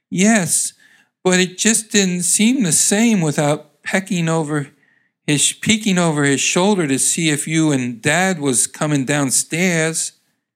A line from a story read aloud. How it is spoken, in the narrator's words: She answered sadly